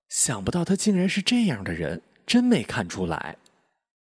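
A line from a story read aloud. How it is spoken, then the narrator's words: Murmuring. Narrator (Chinese): 他喃喃说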